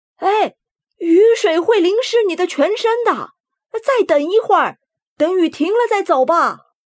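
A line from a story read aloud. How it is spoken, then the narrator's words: Loud shout. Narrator (Chinese): 马蒂先生大喊道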